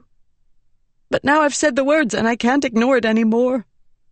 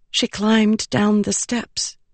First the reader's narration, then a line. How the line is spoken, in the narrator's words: Shallan whispered